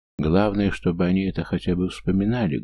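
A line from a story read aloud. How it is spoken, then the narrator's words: Sad wry remark. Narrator (Russian): грустно усмехнувшись, вспомнил я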